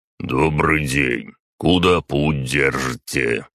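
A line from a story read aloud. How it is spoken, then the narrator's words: Deep displeased voice. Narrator (Russian): пробасил он недовольным тоном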